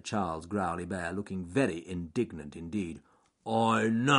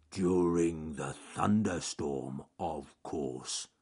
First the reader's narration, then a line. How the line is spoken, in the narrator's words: grumbled Charles Growly Bear